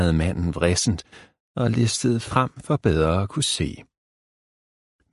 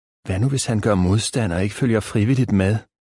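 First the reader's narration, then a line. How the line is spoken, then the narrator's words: Plain question. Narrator (Danish): spurgte ørnen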